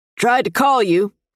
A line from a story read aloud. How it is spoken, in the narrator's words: he shouts over the pouring rain